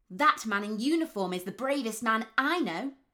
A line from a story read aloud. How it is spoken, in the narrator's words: Tommy shouted